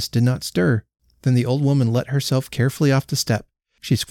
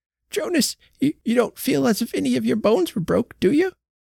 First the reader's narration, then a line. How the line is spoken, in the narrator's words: Her voice was almost sobbing